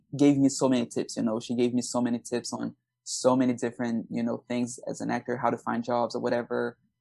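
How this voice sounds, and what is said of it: Latino accent in English. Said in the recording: “I was very insecure about my accent ... I have an accent. I, I'm a Latino”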